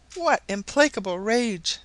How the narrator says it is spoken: exclaimed Mrs

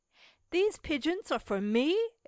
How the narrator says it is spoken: exclaimed Cecil

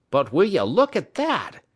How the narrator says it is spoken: he exclaimed

